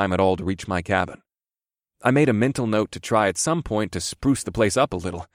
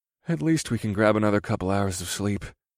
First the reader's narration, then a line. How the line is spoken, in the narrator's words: I muttered